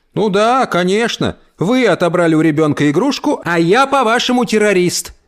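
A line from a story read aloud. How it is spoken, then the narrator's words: Grandmother shouting. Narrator (Russian): закричала бабушка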